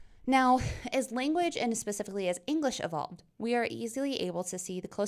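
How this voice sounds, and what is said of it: Usual voice. Nothing is said of it.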